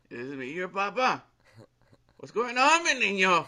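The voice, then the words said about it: Put-on Mexican accent. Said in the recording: “my dad doesn't have a Mexican accent”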